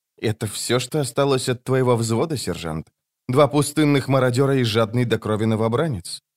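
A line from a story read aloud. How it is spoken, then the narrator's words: Even, level voice. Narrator (Russian): Скворец ответил ровным голосом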